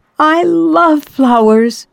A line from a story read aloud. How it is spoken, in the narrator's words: Yaroslava smiled happily and exclaimed